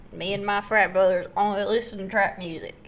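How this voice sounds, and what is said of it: Put-on hick accent. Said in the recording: “I gave them a hick accent”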